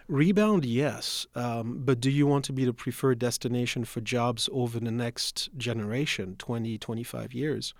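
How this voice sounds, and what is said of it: Non-local accent. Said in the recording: “As you can tell from the accent, I wasn't born here.”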